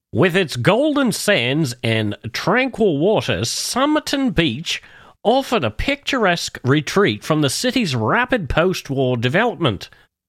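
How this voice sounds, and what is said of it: Poor put-on Australian tourism-ad voice. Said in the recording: “I'm going to put on my best Tourism Australia voice here for this next bit ... I know my accent's terrible”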